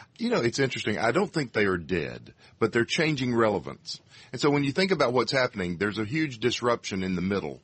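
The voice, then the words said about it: Texas accent. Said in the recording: “has a Texas accent.”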